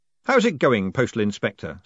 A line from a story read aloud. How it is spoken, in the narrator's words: said Moist cheerfully